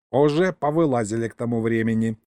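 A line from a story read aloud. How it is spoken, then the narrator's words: Smirking grunt. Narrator (Russian): хмыкнул Егорыч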